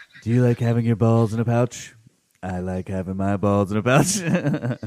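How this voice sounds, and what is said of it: Imitates another person's voice. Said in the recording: “We're just doing impersonations... Presidents doing Shinesty ads.”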